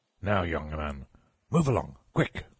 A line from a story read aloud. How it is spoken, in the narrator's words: growled the sentinel